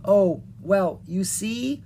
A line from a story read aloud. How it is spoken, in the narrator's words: Leon said slowly